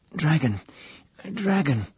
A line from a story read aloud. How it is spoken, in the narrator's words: He said at last, stammering